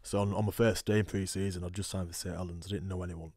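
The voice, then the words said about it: Thick Yorkshire accent, somewhat mellowed. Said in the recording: “Yorkshire twang? ... I've got quite a thick accent. It's mellowed as I've sort of lived over here”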